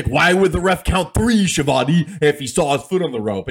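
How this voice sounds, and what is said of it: Imitates another person's voice. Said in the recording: “That was a perfect impression of Jesse.”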